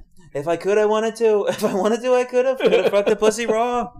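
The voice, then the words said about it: Donald Trump impression. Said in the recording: “Trump impression”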